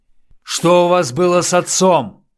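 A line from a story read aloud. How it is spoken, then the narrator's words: Shouting. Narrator (Russian): крикнул Дронго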